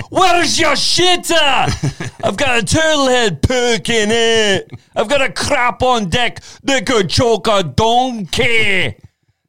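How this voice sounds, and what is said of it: Put-on Scottish accent. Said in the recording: “I love the Scottish accent.”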